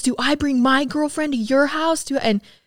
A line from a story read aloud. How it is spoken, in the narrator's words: Just screaming